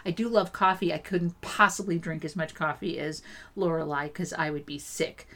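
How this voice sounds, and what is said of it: Talking very fast. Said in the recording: “As you can hear, I'm talking very fast.”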